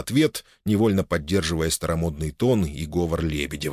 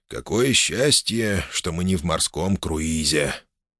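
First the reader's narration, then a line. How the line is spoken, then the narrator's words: Quiet. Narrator (Russian): тихо произнес Иван Еремеевич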